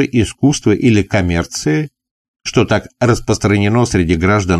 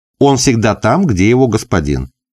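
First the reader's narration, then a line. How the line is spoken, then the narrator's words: Plain. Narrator (Russian): ответила служанка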